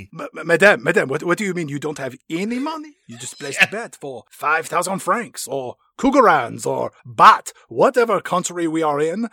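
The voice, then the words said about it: Unclear put-on foreign accent. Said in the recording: “I'm not even sure what accent I'm using.”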